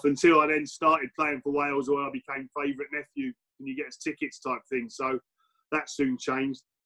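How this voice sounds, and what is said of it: English accent, not Welsh. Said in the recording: “as you can tell by my accent, I wasn't born and bred in Wales ... I was the only one born in England”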